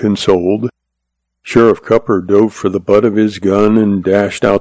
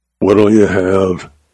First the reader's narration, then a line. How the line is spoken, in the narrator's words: he growled, as was his manner with late customers